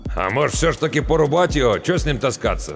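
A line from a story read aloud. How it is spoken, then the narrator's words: Doubtful grunt, older man. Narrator (Russian): с сомнением хмыкнул тот, что постарше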